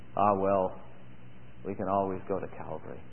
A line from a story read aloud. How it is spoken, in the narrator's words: in a soft Scottish brogue, he said